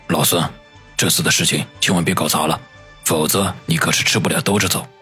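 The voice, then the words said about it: Low, deep voice. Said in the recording (Chinese): “用低沉的声音说道”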